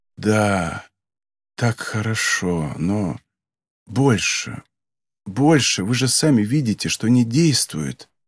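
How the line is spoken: Whisper. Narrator (Russian): Кафка прошептал

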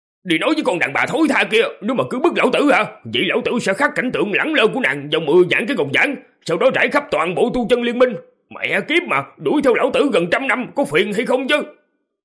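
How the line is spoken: Harried, loud bellow. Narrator (Vietnamese): Tư Đồ Nam, vẻ mặt của gã chật vật, quát to

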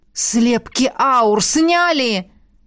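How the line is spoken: Howling in near-unison. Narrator (Russian): Едва ли не хором взвыли ректор и полковник

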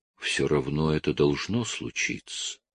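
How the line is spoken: Quiet. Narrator (Russian): так же тихо говорю

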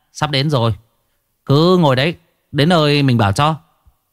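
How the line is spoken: Loud laughing. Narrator (Vietnamese): Tay xe ôm cười lớn

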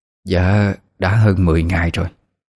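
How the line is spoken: Stammering. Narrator (Vietnamese): mẹ bà ấy liền ấp úng nói

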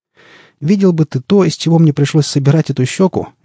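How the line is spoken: Cheerful. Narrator (Russian): весело подмигнул доктор

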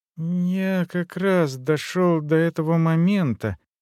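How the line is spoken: Embarrassed mumble. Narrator (Russian): ёрзая от смущения, промямлил он

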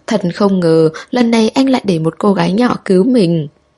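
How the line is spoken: Loud laughing. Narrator (Vietnamese): Tào Nham cười to

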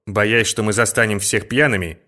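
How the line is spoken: Plain. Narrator (Russian): сказал Муррей

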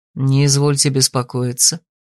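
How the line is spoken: Soft. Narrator (Russian): мягко сказал он

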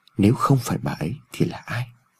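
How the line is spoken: Inaudible mutter. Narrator (Vietnamese): Ông Phúc lẩm bẩm trong miệng mà không người nào nghe thấy

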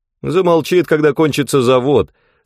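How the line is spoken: Laughing. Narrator (Russian): смеясь ответил Реттерер

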